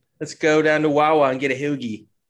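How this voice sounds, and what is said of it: Put-on Delco Philadelphia accent. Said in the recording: “a Delco, like Montgomery County accent”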